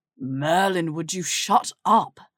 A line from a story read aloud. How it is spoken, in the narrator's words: Draco groaned